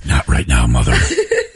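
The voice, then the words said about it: Raspy deep superhero character voice. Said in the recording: “Batman raspy voice”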